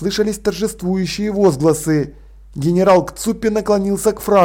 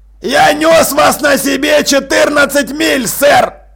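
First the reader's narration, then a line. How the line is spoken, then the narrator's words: Booming. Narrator (Russian): прогремел Джекрам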